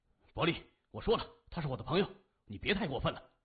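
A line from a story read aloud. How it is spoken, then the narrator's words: Furious, loud voice. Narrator (Chinese): 黄小丁勃然大怒，他高声说着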